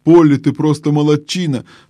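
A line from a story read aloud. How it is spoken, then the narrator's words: Exclamation. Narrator (Russian): воскликнул Дигори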